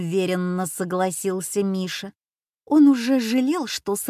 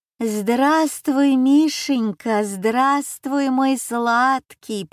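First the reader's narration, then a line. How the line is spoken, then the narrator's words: Affectionate purring grandmother. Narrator (Russian): промурлыкала бабушка Люся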